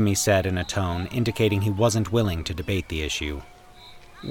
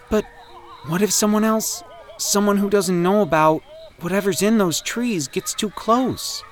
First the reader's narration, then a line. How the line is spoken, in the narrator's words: Danny whined